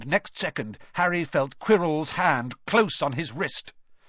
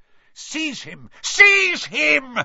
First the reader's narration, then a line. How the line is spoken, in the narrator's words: shrieked Voldemort again